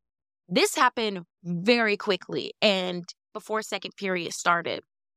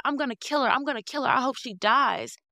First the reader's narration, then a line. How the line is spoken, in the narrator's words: Tisa's still in the hallway yelling